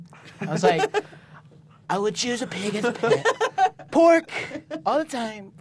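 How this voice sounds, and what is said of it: Imitates another person's voice. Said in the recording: “doing a Donald Trump impression”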